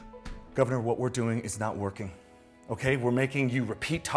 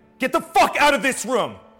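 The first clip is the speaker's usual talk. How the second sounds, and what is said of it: Loud angry yelling. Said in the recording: “that is not yelling. ... That's yelling!”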